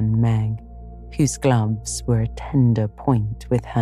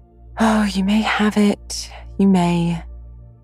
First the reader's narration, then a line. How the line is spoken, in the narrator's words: sighed Meg